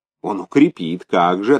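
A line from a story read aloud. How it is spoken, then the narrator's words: Plain. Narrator (Russian): ответил Бунге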